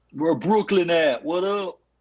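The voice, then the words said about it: Poorly done put-on Brooklyn accent. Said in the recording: “Can you just give me a Brooklyn with a Brooklyn accent, please? ... Yeah, that was terrible.”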